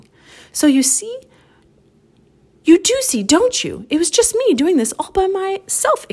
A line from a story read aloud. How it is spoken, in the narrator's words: exclaimed the fox